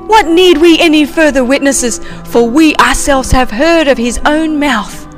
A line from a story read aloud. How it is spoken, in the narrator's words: They cried out